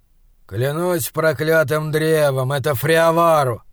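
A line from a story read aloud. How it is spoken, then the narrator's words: Grumbling. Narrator (Russian): проворчал голос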